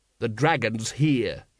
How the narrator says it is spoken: he snapped

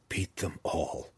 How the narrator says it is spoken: he whispered under his breath

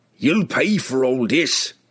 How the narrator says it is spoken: it spat

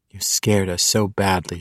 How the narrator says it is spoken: she whispered into his ear

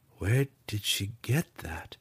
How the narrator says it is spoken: Drizzt mumbled

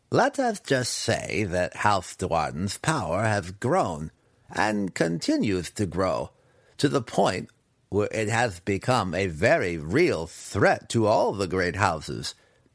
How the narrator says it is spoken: Massage purred, loving the intrigue of positioning before a war

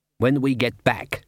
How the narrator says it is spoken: said Glod

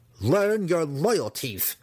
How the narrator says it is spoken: Massage snarled at Gwenhiver

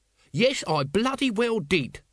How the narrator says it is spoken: said Nobby hotly

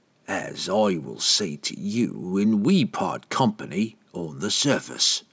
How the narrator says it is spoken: Entreri promised grimly

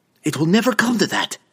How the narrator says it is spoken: Verna snapped back

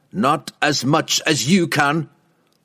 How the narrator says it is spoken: Wolfgar snarled back

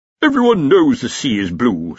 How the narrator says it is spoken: said the Dean

